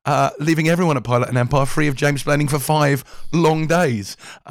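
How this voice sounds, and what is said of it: Hoarse, partly lost voice. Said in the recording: “welcome to a horse episode ... As you may have guessed or noticed slightly, I've lost my voice.”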